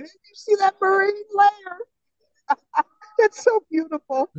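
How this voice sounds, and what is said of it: Imitates another person's voice. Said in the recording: “Jim Tracy impersonation”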